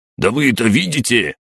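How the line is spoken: Snarling, spluttering. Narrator (Russian): зарычал брызжа слюной

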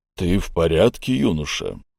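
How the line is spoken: Deep bass question. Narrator (Russian): спросил меня басом Тасбур

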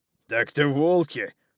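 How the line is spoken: Giant's angry laughter. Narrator (Russian): зло рассмеялся в ответ великан

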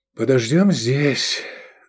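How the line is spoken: Sigh. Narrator (Russian): вздохнул префект

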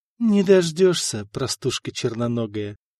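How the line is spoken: Whispered reply. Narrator (Russian): шепнула княгиня в ответ Мария

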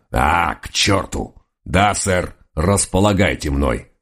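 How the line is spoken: Growled, righteously offended. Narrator (Russian): прорычал честный доберман, и его праведную обиду не мог остановить даже сам инспектор

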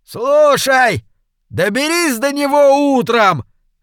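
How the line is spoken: Shouted. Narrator (Russian): крикнул Джефф Хмель

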